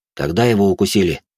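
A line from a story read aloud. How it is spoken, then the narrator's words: Plain. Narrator (Russian): спросил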